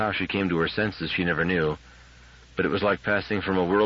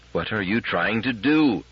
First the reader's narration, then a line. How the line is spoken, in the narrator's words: Her voice rose to a harsh scream